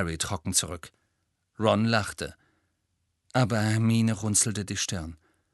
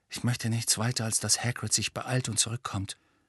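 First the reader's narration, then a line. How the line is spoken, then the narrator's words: Quiet. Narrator (German): sagte Harry leise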